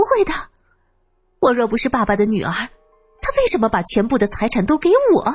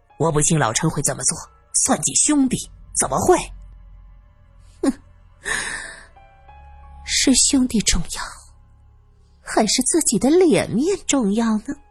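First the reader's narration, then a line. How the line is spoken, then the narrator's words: Sneering, cold laughter. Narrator (Chinese): 哼，月梅不住的冷笑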